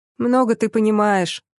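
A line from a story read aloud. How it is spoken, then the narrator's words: Grumbling. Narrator (Russian): пробурчала Карина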